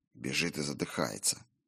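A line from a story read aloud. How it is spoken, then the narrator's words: Gloomy remark. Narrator (Russian): мрачно добавил Фредегар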